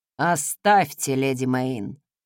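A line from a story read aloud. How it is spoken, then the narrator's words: Sepulchral voice, embarrassed. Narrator (Russian): загробным голосом проговорил опростоволосившийся Вернон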